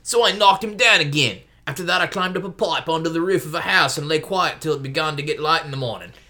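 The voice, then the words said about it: Character voice with Archenlander accent. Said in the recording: “this is my Corin voice. Your, your Archenlander accent ... I'm going to use that exact voice to refer to all of his lines”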